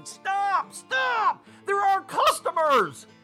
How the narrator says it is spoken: the bartender and busboy began shouting

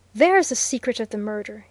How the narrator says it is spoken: he exclaimed

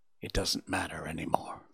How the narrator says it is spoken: added in a whisper

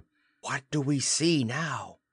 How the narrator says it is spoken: to whisper

